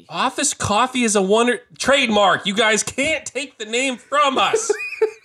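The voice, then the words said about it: Yelling. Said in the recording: “I'm yelling already”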